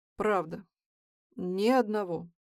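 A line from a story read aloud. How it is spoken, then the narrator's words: Heavy sigh. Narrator (Russian): Илья тяжело вздохнул и сказал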